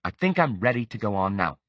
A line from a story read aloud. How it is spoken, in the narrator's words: Jessica said curtly